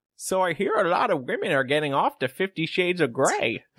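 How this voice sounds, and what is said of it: Impression of an elderly grandmother. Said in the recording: “your grandma impression”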